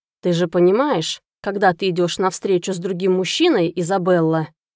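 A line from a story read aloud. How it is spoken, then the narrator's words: Growling. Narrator (Russian): прорычал Сатеран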